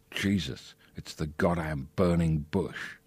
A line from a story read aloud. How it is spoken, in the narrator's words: He heard whisper